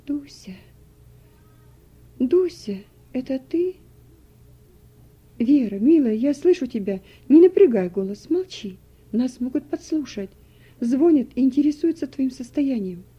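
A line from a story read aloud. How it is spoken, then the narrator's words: Weak, quiet voice. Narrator (Russian): Вера бессильным голосом произнесла тихо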